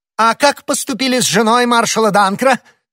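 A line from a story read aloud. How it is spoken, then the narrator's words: Furious royal exclamation. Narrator (Russian): воскликнул король в порыве неудержимого гнева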